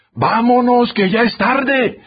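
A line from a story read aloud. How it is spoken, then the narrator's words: Distant shout from back. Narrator (Spanish): gritó alguien desde los últimos asientos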